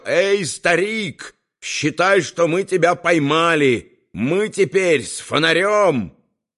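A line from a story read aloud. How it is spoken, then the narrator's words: Loud shout. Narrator (Russian): громко прокричал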